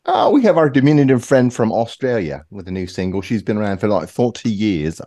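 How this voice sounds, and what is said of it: Put-on British accent. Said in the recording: “I'm doing a British accent”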